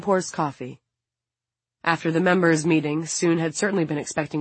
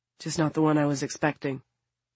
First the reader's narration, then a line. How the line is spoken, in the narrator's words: David replies in a subdued voice